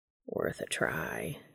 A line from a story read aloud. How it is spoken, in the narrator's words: he purrs